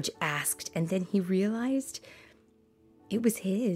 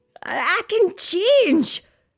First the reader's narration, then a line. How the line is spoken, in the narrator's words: Scrooge cried